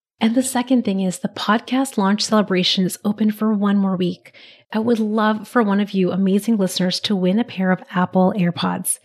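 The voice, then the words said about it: Raspy voice. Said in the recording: “my voice sounds a little raspy, ... I'm just getting over a cold.”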